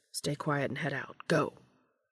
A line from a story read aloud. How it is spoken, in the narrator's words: Dean murmured to the others